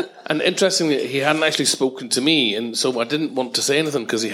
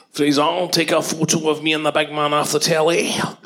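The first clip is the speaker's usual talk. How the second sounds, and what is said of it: Put-on Edinburgh accent. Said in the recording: “That's an Edinburgh accent, by the way.”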